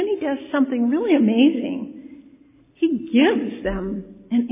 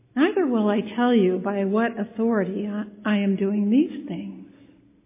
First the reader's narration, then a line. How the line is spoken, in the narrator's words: Jesus very calmly replied